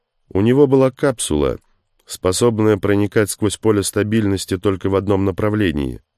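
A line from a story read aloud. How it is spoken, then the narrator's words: Plain. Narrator (Russian): сказал Тейнер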